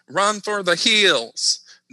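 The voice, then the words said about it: Southeast Texas accent. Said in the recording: “That's me in my Southeast Texas accent.”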